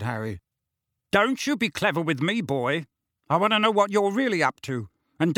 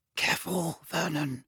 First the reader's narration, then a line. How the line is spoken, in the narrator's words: breathed Aunt Petunia